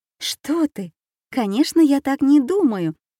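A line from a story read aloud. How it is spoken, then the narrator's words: Astonished exclamation. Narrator (Russian): воскликнула Аня в изумлении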